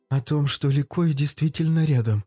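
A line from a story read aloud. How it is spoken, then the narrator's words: Hoarse. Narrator (Russian): прохрипела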